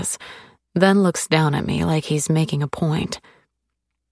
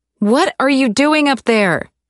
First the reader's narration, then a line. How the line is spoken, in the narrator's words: I shout